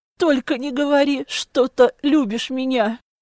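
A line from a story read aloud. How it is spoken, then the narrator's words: Moaning. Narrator (Russian): Застонала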